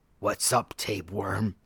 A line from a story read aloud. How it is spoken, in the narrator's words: a tortured voice rasped